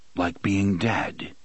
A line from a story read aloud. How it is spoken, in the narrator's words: the gunslinger said in that same mild voice